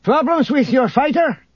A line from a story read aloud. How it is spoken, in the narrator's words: Isolde shouted across the room